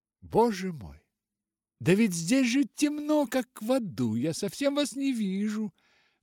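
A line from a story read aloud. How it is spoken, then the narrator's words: Exclaimed. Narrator (Russian): воскликнула она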